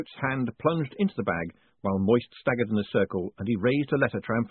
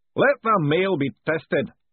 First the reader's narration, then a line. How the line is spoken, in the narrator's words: bellowed the all-commanding voice